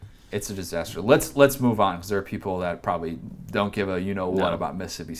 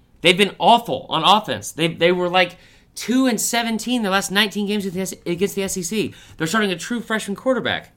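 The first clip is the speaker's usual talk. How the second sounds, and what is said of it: Yelling, agitated loud delivery. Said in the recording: “Why am I yelling”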